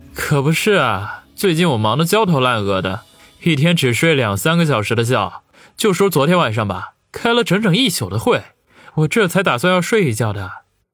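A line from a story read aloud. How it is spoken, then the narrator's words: Feigned gravity, sighing. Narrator (Chinese): 佯装深沉样来，叹口气说道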